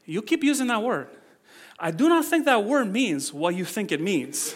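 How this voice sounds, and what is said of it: Imitated Inigo accent. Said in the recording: “accents”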